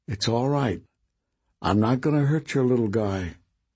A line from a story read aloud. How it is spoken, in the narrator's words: Nick very gently said